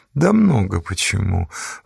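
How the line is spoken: Sigh. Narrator (Russian): вздохнул Конан

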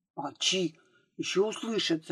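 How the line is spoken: Whispering. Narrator (Russian): зашептала Марийка

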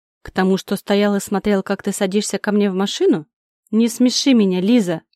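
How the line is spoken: Contemptuous snort. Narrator (Russian): Он презрительно хмыкнул

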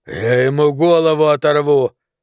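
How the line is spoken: Growled through clenched teeth. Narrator (Russian): рычал сквозь стиснутые зубы

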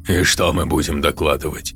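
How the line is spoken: Skeptical snort. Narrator (Russian): хмыкнул Назери

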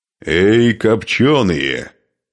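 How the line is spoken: Roaring. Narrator (Russian): взревел Нурман по-славянски

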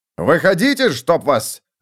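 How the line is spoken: Barked. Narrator (Russian): рявкнул сержант

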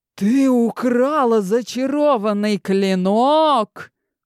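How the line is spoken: Furious roar. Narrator (Russian): взревел военачальник

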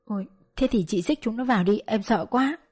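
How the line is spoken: Terrified stammering. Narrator (Vietnamese): Bà Tám sợ như dao vừa kề nơi cổ, lắp bắp

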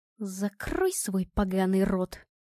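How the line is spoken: Quiet. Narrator (Russian): тихо сказала Наталья

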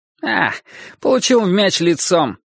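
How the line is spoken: Cheerful reply. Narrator (Russian): бодро ответил он

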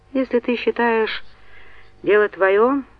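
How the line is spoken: Sighed. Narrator (Russian): вздохнул Йен

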